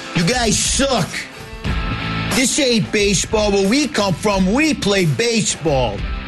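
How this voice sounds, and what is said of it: Loud heckling Long Islander voice. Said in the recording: “can you imagine the tone of all three of those people who come down here? ... just start screaming at people. What might it sound like?”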